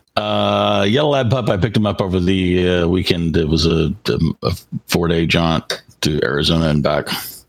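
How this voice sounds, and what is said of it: Hoarse, worn-out voice. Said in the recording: “that's why my voice is hammered. Because lots of singing and talking in the car.”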